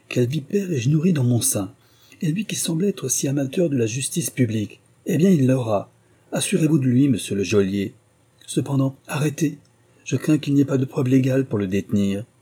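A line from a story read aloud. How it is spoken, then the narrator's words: Exclaimed. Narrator (French): s'écria Sir William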